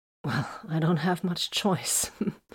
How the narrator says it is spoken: she laughed uneasily

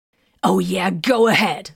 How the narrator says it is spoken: the librarian snapped with biting sarcasm

